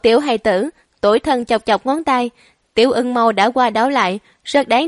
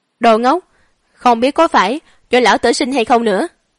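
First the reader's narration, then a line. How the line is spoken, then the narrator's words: Angry. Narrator (Vietnamese): Đại Tần Chiến Thần giận dữ nói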